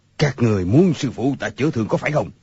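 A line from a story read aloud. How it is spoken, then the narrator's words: Sharp shout. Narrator (Vietnamese): người câu cá liền quát lên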